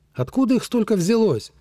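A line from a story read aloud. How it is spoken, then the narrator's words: Shouted. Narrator (Russian): прокричал бывший лейтенант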